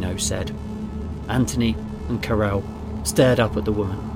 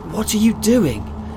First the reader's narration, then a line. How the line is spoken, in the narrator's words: Anthony said, his voice shaking